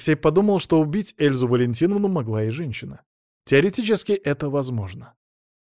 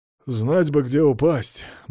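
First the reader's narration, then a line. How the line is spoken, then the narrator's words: Heavy sigh. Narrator (Russian): Мамонов тяжело вздохнул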